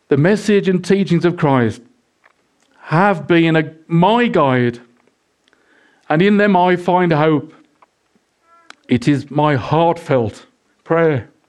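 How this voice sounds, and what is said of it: Emotional, choked-up reading voice. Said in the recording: “Why do I get so emotional? ... I get emotional as well”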